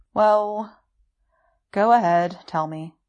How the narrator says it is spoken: Wei Ying sighs

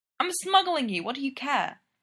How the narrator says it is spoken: Taylor snaps

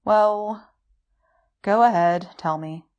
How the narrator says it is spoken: Wei Ying sighs

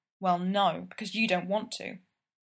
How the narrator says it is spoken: he doesn't miss her suddenly muttering

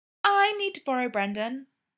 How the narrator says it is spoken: Greta said, smiling sweetly

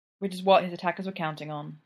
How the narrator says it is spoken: Jack sighed

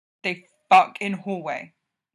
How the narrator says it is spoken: he said, grinding his voice out between his teeth

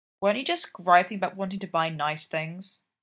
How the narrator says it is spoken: Sydney grumbles

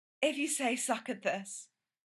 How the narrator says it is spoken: Gerard breathed

